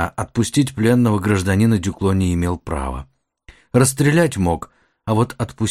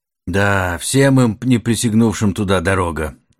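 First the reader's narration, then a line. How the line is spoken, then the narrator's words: Uncertain. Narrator (Russian): неуверенно начал лейтенант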